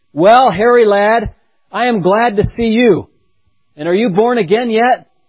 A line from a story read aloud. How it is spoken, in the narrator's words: exclaimed